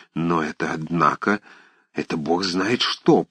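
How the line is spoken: Muttered. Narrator (Russian): самый храбрый из них, пробормотал

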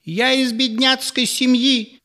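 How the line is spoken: Shrieking exclamation. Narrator (Russian): как-то даже с визгом воскликнула Елизавета Васильевна

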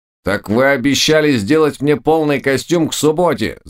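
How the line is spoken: Shout. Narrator (Russian): закричал он

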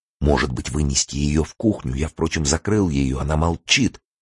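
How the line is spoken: Anxious whisper. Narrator (Russian): тревожно зашептал Елене Лариосик

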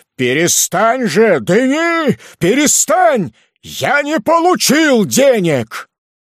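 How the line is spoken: Shouted. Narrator (Russian): он закричал

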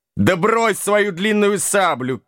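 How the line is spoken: Shout. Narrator (Russian): крикнул капрал

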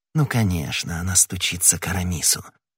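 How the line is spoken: Whispering. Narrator (Russian): прошептал Д'Артаньян

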